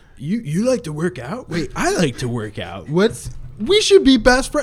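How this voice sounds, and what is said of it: Dumb bro ogre-like voice. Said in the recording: “That like, is not how he sounds like ... that's how he sounds like in my world. I love doing that voice ... he sounds like such a weird like bro ogre ... So he's like a broger”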